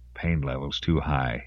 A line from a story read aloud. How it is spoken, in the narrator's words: he whispered